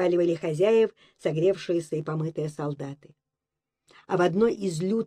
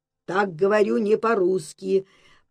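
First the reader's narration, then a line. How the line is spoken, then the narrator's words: Menacing growl. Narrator (Russian): прорычал грозно Митя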